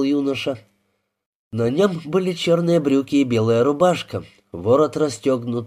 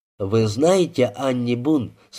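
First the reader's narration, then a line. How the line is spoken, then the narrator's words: Plain. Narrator (Russian): спросил Клинк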